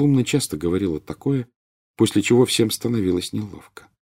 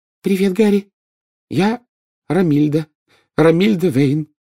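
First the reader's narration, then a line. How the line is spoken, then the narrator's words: Loud and confident. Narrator (Russian): сказала она громко и уверенно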